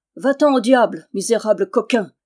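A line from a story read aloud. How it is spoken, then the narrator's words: Thundering shout. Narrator (French): s'écria Méloir d'une voix tonnante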